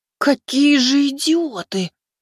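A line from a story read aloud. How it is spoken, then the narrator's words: Angry whisper. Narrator (Russian): Услышав эту новость, зло прошептала она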